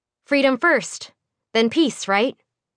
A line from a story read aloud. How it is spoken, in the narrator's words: she said